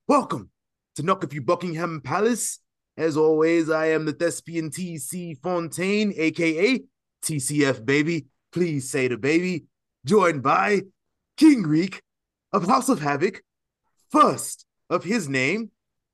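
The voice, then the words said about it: Put-on accent. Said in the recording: “let me kill the accent here”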